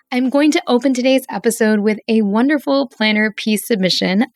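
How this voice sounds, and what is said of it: Slightly hoarse voice. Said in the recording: “my slightly hoarse voice edition, so if I don't sound exactly like I usually do”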